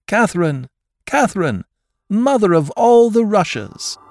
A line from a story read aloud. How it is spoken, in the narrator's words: the crowd on all sides rushed warmly in, engulfing her in happiness, shouting